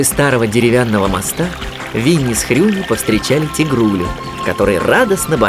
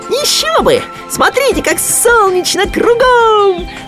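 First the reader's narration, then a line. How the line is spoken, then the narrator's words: Excited squeal. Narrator (Russian): взвизгнул Хрюня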